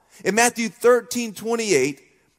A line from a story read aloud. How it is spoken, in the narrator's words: the farmer exclaimed